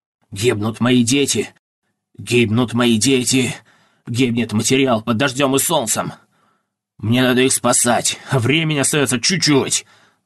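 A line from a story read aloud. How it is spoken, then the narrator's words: Grumbling. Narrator (Russian): ворчал мастер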